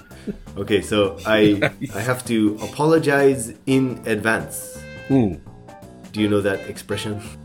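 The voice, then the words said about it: Hoarse voice. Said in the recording (Japanese): “声が枯れてます”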